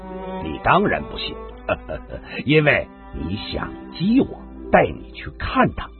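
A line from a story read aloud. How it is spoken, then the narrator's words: Laughing. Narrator (Chinese): 高丽又笑了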